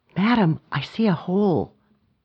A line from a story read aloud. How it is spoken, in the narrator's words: Ahmed whispered urgently